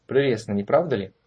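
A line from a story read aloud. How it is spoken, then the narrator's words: Mocking. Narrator (Russian): насмешливо произнес Барден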